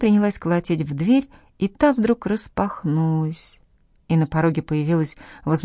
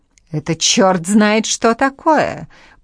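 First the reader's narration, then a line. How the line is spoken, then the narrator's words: Speaking through gritted teeth. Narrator (Russian): процедила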